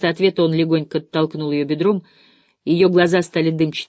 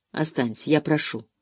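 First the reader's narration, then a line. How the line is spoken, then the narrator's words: Tender whisper. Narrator (Russian): снова шепнул он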